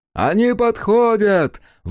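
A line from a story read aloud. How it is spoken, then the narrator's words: Rider shouting. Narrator (Russian): выкрикнул наездник Агон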